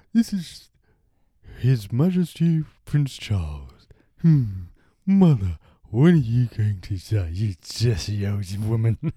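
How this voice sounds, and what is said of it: Impression of Prince Charles. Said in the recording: “a Prince Charles impression ... I'm Prince Charles, if you're not getting that bit”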